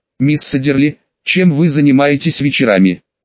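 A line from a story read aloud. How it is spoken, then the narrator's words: Soft question. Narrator (Russian): мягко спросила Долорес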